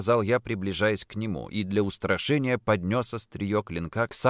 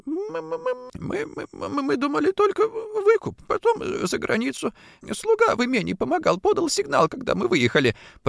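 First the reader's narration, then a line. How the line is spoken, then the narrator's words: Frightened babbling. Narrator (Russian): пролепетал кучер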